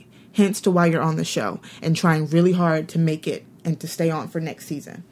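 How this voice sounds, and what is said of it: Breathless, out of breath speech. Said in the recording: “I'm like out of breath.”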